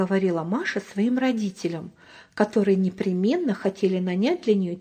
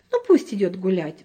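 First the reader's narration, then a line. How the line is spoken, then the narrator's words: Sighing mother. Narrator (Russian): вздохнула мама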